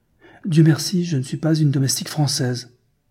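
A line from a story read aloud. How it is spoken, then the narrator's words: Exclaiming. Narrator (French): s'écria-t-elle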